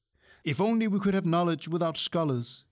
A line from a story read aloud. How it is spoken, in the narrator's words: sighed